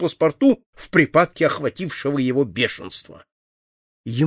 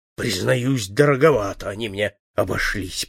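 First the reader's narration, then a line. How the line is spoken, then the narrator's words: Mutter. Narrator (Russian): пробормотал Жан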